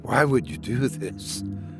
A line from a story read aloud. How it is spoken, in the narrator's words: Oliver whispered in disbelief